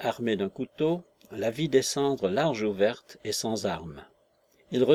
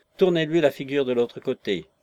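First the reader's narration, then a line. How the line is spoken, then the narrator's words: Gleeful snickering command. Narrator (French): ordonna le terroriste ventru avec un ricanement de joie satisfaite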